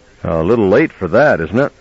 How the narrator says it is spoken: Ordner sighed and then said with good-humored reserve

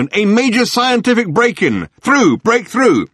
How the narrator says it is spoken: barked the megaphone

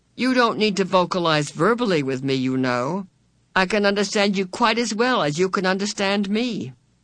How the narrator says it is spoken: he continued blandly

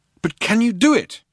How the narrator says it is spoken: cried Loonquall

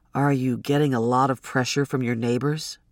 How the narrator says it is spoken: Quincy asked gently

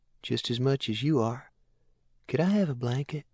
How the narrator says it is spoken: he asked Asher in a sweet, boyish voice

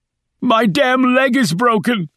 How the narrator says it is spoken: screamed back

